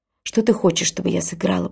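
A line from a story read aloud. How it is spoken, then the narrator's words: Whisper. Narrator (Russian): прошептала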